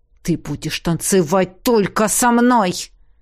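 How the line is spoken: Shadow growling. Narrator (Russian): прорычал тень

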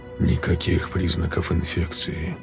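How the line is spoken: Mutter. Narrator (Russian): пробормотал я

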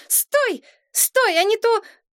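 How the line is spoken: Breathless flushed shout. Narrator (Russian): запыхавшаяся, раскрасневшаяся Мария и закричала

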